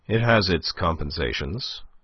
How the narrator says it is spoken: quoth he, in that curious cold tone of his that left one wondering whether he meant or not what he seemed to mean

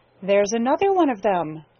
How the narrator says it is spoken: chuckled Jenny

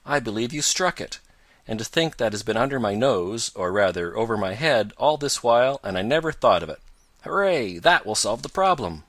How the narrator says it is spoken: he cried

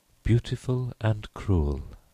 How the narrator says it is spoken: she repeated dreamily

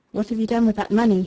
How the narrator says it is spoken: he asked, in a cold voice

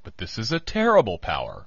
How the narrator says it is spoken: cried

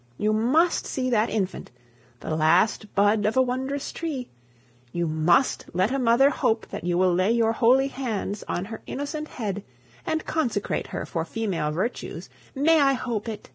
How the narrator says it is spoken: she exclaimed

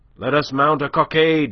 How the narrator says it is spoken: he cried

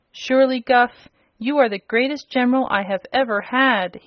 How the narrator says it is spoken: he exclaimed, his eyes sparkling with joy

